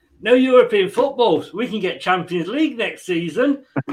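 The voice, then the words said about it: Impression of an Arsenal fan. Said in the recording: “do an impression of Arsenal fans”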